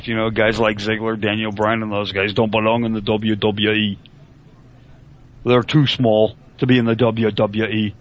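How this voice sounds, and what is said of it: Horrendous low-effort fake accent. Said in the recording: “that's a horrendous fake accent ... it's not one of your best ... I'm not putting any effort into it”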